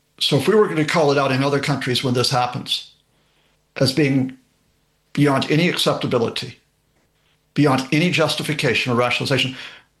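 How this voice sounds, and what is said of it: American accent. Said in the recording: “You can tell from the accent that I was born and raised there”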